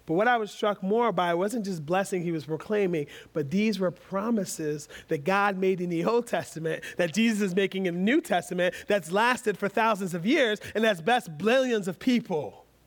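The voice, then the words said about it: Rapid rushed speech. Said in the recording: “That was quick. I said that quickly.”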